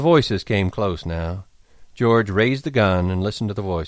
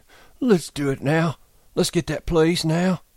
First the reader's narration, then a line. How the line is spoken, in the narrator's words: Lenny begged